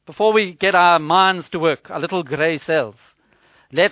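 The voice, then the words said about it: Poor put-on Belgian accent. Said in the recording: “excuse my very poor Belgian accent”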